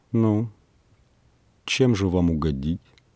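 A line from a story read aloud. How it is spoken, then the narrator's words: Plain. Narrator (Russian): спросила она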